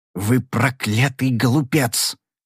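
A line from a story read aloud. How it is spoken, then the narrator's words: Whispered. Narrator (Russian): прошептал Огар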